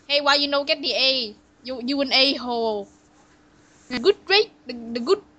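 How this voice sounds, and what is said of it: Put-on Asian accent. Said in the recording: “Asian accents”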